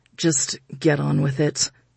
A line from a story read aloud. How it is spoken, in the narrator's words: Quinn mumbled under his breath